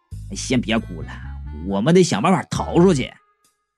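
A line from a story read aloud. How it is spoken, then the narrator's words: Low voice. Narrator (Chinese): 我低声的说了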